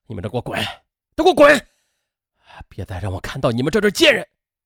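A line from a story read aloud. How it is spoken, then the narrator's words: Shouting. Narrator (Chinese): 袁平大喊道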